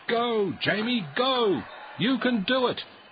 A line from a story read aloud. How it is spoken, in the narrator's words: shouted Coach Wilson